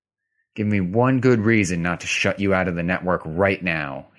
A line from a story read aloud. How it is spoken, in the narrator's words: he said through clenched teeth